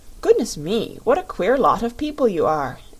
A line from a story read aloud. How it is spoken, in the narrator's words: exclaimed the Rubber Bear